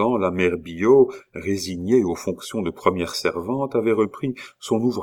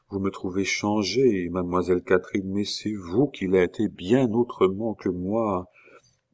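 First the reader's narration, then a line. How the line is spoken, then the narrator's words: Murmured. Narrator (French): murmura Pitou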